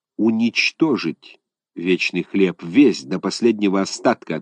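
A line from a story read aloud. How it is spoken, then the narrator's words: Plain. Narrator (Russian): ответил Роденшток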